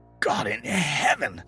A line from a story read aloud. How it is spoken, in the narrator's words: choked